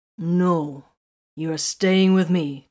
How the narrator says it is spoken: Titus growled

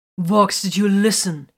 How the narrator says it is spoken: He snapped

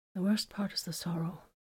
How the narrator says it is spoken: Vox breathed

